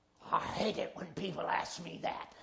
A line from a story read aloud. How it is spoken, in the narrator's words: he muttered under his breath